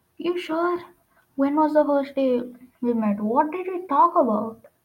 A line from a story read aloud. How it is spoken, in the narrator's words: Jason asked